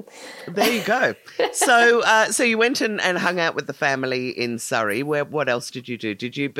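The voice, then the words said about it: Mild English accent. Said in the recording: “you have a lovely accent. It's a very mild English accent from that... area... hear the elocution”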